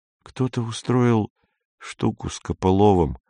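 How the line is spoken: Sad. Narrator (Russian): печально сказал Гриша

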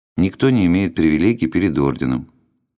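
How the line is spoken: Flat, colorless voice. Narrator (Russian): тем же бесцветным голосом произнес чиновник

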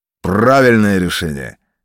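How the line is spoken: Barked command. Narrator (Russian): гаркнул господин ротмистр

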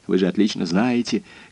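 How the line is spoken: Feverish mumbling. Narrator (Russian): горячечно бормотал Симоне

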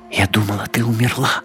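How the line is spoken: Barely audible. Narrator (Russian): еле слышно сказала Аска

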